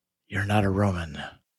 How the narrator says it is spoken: He half smiles, whispering

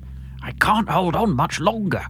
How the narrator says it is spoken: Derek whispers in my brain

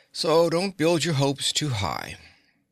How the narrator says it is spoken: the little man answered sleepily

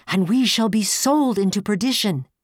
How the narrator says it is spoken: sighed

